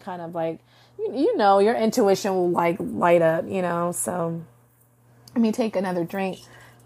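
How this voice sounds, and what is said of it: Hoarse, strained voice. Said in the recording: “My voice is getting hoarse.”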